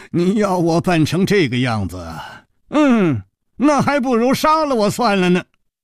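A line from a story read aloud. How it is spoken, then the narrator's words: Sighing, resigned. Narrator (Chinese): 楚留香长长地叹息了一声，说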